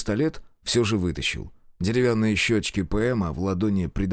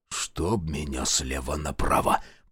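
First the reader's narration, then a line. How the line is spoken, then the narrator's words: Whisper. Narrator (Russian): прошептал майор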